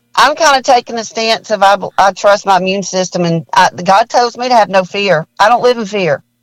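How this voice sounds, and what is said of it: Alabama accent. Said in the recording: “where are you from? Because I love your accent ... I'm from Birmingham, Alabama. Actually from Jackson, Mississippi, but I'm a Bama girl ... I love your accent.”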